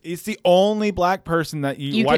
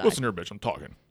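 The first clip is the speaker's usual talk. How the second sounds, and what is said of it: Imitates another person's voice. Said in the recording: “Your impression of him is not too bad.”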